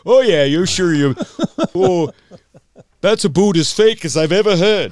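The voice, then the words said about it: Poor put-on Canadian accent. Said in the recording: “I'm trying to do a Canadian accent. ... It's terrible.”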